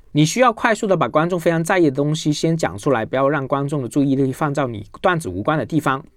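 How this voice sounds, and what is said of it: Mandarin with a Cantonese accent. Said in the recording (Chinese): “我本身是广东人，普通话有广东口音”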